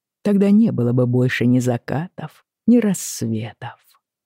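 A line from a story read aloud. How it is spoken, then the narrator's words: Very gentle. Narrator (Russian): сказал он очень мягко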